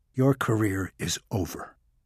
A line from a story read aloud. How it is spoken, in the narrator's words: Maxwell said calmly